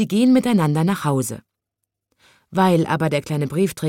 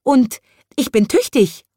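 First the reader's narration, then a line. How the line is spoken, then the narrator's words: Squeaky voice. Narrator (German): piepst die Urlaubsvertretung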